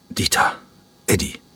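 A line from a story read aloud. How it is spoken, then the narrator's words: Croaking voice. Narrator (German): sagte er mit krächzender Stimme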